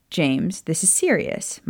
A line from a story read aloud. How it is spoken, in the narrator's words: Maya said, smiling brightly